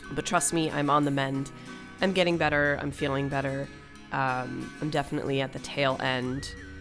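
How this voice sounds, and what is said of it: Sick, ill-sounding voice. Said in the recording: “I am your sick host ... As you can hear from my voice, I have COVID ... you've got a sick voice”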